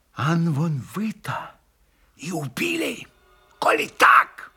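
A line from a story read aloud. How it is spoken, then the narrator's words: Furious whisper. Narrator (Russian): Яростно прошептал он ему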